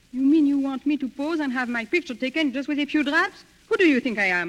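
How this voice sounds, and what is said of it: Foreign accent. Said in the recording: “Say, you've got an accent.”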